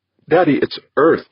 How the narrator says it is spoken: exclaimed

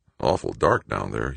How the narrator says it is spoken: he muttered

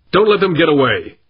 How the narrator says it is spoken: snapped Gormley

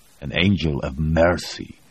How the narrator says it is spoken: Voznesensky snarled

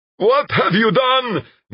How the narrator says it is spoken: Nikolaev screamed

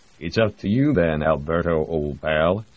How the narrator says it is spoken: said the American

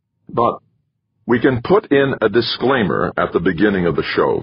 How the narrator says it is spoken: Ventura said, raising his voice enough to cut off all the others

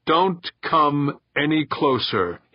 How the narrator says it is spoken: he said sternly

